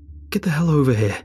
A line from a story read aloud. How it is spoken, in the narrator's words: cried